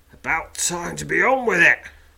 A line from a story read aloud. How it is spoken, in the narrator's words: grumbles a man